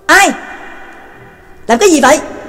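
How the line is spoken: Guards shouting loudly. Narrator (Vietnamese): đám binh sĩ hộ vệ quát lớn

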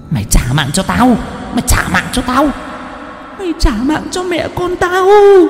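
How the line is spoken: Hissing, furious shriek. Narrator (Vietnamese): Cô Nở miệng cứ rít lên

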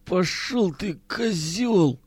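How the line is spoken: Hoarse, parched rasp. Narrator (Russian): прохрипел Миронов, с трудом ворочая пересохшим языком

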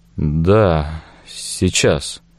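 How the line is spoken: Distracted mumble. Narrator (Russian): пробормотал я

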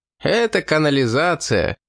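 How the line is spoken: Laughing. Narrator (Russian): рассмеялся тосконец

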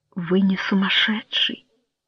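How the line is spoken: Tender. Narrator (Russian): нежно сказала

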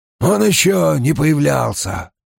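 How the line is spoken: Hoarse report. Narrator (Russian): хрипло сообщил Безухий

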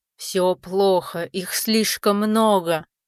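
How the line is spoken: Growled. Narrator (Russian): прорычал Рамбалак

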